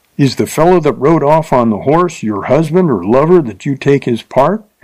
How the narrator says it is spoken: asked Bill, half angrily and half wondering

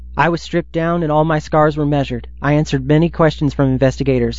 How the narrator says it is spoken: Capers said

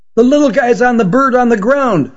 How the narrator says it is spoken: shouted the boy in the red baseball cap

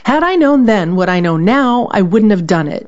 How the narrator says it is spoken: Bissinger says

